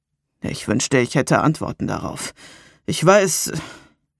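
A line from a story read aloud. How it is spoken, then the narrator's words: Heavy male sigh. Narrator (German): er seufzte schwer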